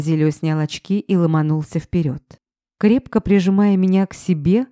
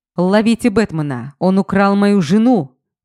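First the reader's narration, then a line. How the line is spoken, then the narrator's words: Frantic yell. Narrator (Russian): Истошно заорал он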